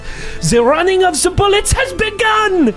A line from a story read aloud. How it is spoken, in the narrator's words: Camille shout